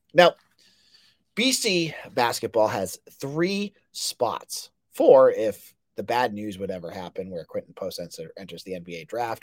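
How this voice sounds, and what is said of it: Scratchy voice. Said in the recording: “my voice sounds really scratchy ... I get a little cold”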